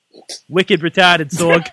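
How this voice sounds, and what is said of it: Put-on Boston accent. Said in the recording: “He's impersonating a Boston person ... he did it in an accent”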